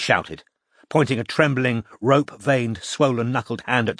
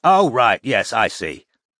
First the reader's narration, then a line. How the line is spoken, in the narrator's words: said Roy loudly